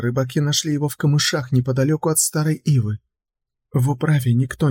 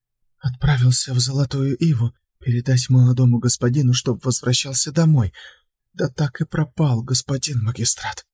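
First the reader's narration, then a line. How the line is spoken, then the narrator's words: Trembling voice. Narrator (Russian): Дрожащим голосом ответила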